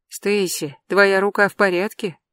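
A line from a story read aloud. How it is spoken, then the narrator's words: Soft question. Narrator (Russian): мягко спросила Лили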